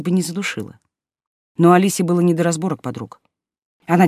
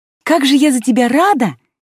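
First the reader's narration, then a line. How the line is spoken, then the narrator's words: Almost sincere exclamation. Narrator (Russian): почти искренне воскликнула Лера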